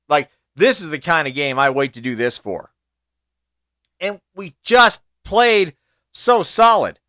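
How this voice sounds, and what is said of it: Excited, energetic tone. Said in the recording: “can you tell by my tone I'm excited?”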